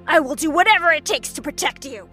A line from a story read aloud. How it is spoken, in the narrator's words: he barked back